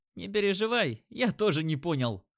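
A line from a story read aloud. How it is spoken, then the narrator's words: Snorting. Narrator (Russian): хмыкнул Димка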